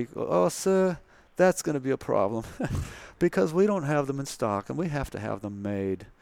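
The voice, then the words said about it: Put-on strong Southern US accent. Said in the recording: “a very strong southern accent”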